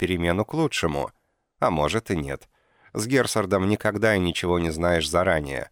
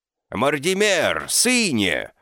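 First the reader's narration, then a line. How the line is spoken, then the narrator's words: Joyful shout. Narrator (Russian): закричал он радостно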